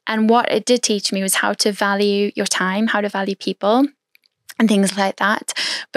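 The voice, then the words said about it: Mixed South African Irish accent. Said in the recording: “Where is your accent from? ... I'm a South African Irish girl who's part Dutch, French and Scottish and Irish and English ... They thought I was from the British Republic ... this accent”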